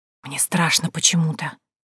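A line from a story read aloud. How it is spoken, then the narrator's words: Uneasy shivering whisper. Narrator (Russian): прошептала я в ответ, ёжась от непонятного чувства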